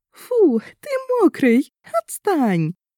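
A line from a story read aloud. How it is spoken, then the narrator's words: Squealing with merry laughter. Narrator (Russian): верещала она, весело смеясь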